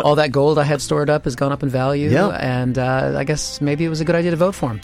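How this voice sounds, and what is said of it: American accent. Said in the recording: “It's good to get an American in the studio ... I'm riding this accent.”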